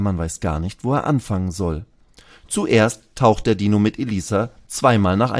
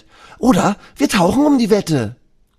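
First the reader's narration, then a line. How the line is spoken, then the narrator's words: Shouting. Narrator (German): Elisa schreit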